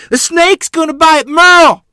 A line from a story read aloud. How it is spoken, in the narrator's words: Mother scream in panic